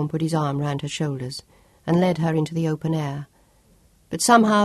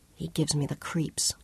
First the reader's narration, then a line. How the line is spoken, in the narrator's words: Claudia whispered